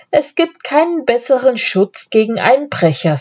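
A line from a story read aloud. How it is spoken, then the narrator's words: Laughing while speaking. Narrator (German): sagt der Graf lachend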